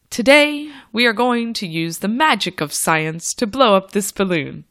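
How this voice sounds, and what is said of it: Theatrical, fantastical teacher voice. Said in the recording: “my fantastical teacher voice”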